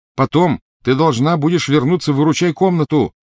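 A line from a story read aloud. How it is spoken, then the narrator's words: Shouted after her. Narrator (Russian): крикнул он ей вслед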